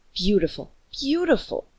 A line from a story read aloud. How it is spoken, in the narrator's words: the colony governor said eagerly